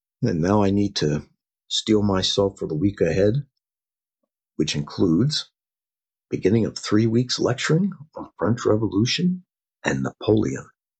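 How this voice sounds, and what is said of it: Slightly rough voice. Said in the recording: “My voice is a bit rough. I was under the weather this past week.”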